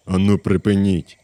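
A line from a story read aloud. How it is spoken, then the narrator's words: Exclaimed. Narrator (Ukrainian): вигукнув Тревіс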